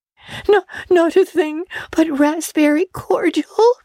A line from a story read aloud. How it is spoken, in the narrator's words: sobbed Anne